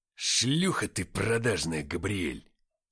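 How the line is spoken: Angry bark. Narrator (Russian): рявкнул Уфимцев

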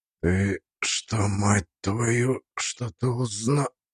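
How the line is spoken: Breathed out. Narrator (Russian): Он выдохнул

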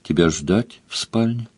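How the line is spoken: Quiet question. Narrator (Russian): Мара тихо спросила

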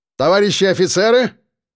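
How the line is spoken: Loud bark. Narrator (Russian): Громко гаркнул кадровик

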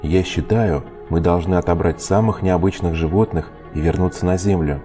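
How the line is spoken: Plain. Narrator (Russian): ответил Холдред

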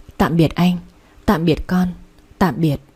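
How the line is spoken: Faint barely moving whisper. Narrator (Vietnamese): miệng khẽ mấp máy

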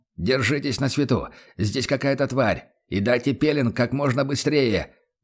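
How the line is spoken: Shouted warning. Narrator (Russian): выкрикнул Лекс

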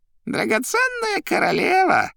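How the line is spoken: Squeaky voice. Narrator (Russian): пищал Коровьев

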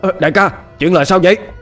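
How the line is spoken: Stunned shouted question. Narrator (Vietnamese): Tên đạo sĩ ngỡ ngàng, hét lên hỏi

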